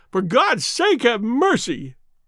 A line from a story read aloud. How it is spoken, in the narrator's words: he shrieked